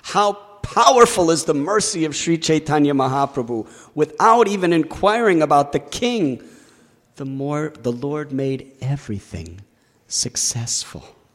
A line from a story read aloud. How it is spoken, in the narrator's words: Kaviraj Goswami exclaims